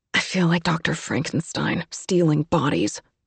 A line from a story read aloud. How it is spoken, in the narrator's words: muttered Kate